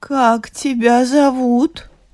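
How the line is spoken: Mother sobbing, asking. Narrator (Russian): мать его зарыдала и спрашивает

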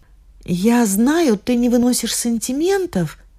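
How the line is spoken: Timid. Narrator (Russian): сказала она робко

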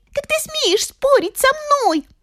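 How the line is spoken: Shouting angrily. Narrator (Russian): закричала остроноска

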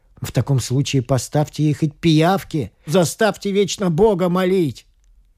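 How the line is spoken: Angry shout. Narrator (Russian): вспылил и крикнул

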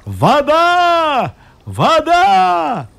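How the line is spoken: Knight's booming shout. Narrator (Russian): Рыцарь крикнул зычным голосом

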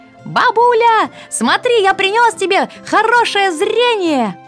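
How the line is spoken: Child's shout. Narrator (Russian): крикнул внучок

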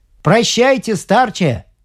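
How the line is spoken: Shouted farewell. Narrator (Russian): крикнул ему Огнев

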